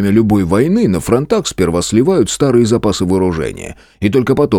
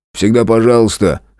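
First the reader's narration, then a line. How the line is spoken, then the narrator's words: Short laugh. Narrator (Russian): хохотнул Зверев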